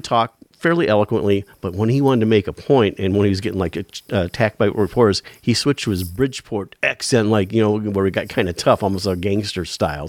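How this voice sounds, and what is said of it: Inland North American accent. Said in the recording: “what an inland north accent he has. So you have certain vowels that are affected by a process called the Northern City Shift... it's absolutely something that you have in your speech”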